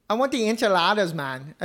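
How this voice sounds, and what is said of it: Bad Mexican accent, sounds Jamaican. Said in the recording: “Mexican accent ... No, that was bad. ... You're Jamaican.”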